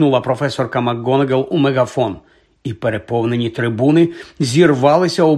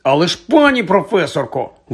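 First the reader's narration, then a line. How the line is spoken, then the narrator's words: Exclamation. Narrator (Ukrainian): вигукнув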